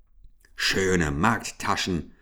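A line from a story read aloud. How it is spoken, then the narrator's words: Growled. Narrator (German): knurrte Ambrosius Dauerspeck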